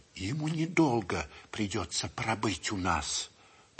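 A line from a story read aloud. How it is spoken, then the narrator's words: Whispered. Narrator (Russian): прошептал доктор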